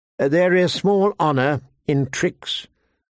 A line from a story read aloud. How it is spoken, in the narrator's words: the old man said stiffly